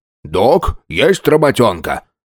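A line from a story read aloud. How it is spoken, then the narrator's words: Cheerful declaration. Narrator (Russian): весело заявил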